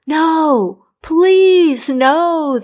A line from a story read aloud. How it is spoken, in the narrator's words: the king cried